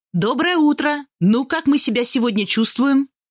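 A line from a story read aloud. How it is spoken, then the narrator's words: Cheerful. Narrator (Russian): И весело произносит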